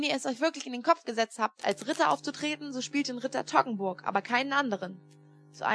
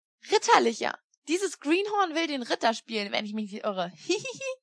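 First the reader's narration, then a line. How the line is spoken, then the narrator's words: Laughing heartily. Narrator (German): lachte, dass er sich den Bauch halten musste und fuhr dann, noch immer lachend, fort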